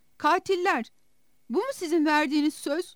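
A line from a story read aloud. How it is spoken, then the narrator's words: Shouted. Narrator (Turkish): diye bağırdı Sera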